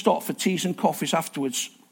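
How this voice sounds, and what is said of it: Loud shouted announcement. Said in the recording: “in your loud voice”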